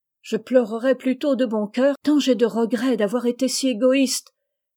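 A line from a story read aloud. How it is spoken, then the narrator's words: Exclamation. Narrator (French): s'écria Rose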